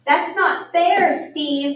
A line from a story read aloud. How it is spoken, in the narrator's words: yelled James